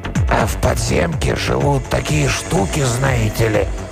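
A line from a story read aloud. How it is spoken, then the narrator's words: Sudden hoarse trembling voice. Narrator (Russian): Голос, хриплый и дрожащий, прозвучал внезапно откуда-то сзади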